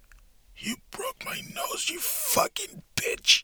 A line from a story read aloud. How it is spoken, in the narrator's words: he said under his breath